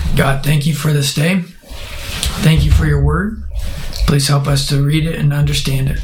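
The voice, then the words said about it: Hoarse, nearly lost voice. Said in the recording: “my voice is MIA”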